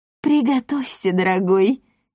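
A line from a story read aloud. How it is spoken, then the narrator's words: Giggling woman. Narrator (Russian): хихикнула госпожа Монпансье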